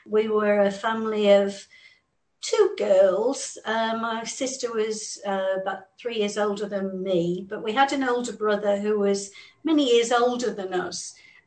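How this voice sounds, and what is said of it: English accent. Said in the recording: “I grew up in England, as you can hear from the accent.”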